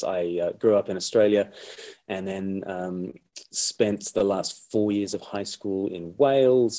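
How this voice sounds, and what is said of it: Australian-sounding accent. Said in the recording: “you do sound remarkably like Crocodile Dundee to me. It's not an Eastbourne accent ... To an Australian, I just sound like another Englishman ... to all the English, I sound like a convict”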